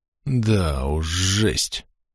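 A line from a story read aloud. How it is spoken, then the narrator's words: Breathed out, young man. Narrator (Russian): выдохнул парень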